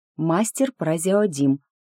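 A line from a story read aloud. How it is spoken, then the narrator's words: Through gritted teeth. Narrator (Russian): напомнила я сквозь зубы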